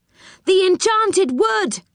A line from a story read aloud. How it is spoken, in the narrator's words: he cried